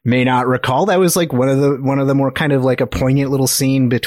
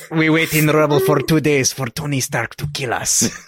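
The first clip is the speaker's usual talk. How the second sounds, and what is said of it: Put-on foreign character accent. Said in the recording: “with the accent”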